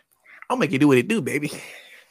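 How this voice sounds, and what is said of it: Imitates another person's voice. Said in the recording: “I got a little decent Ray Charles impersonation too”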